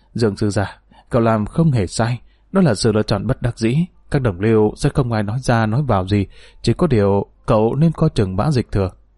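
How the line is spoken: Soft. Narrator (Vietnamese): Hắn khẽ mở miệng nói

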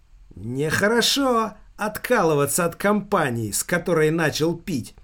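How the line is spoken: Spiteful. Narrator (Russian): злобно заявил Машка

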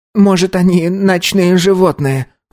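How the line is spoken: Breathless young man. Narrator (Russian): выдохнул юноша

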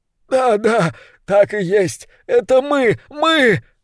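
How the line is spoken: Sobbing. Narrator (Russian): рыдал крысолов номер два

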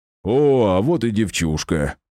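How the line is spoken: Booming voice. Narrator (Russian): прогудел Добрый

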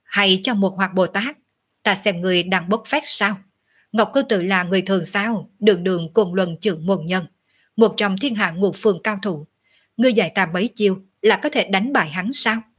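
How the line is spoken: Laughing loudly. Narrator (Vietnamese): Tiểu Lôi đột nhiên ôm bụng cười to, nói

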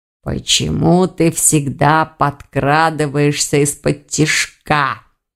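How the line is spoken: Angry hiss. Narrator (Russian): прошипел Аристакес, гневно

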